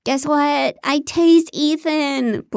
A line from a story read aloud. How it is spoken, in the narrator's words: Blair squealed